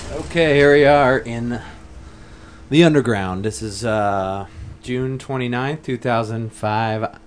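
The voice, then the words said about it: Announcer-style radio voice. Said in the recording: “Bobby is shaking his head because he thinks I've got my radio voice on”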